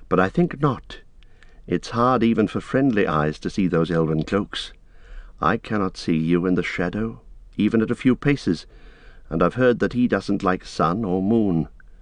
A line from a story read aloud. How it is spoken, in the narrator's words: said Frodo quietly